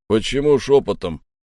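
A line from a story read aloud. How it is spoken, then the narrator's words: Loud, snide question. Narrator (Russian): громко и ехидно поинтересовался Грег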